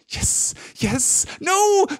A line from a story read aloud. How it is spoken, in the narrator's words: shrieked Gollum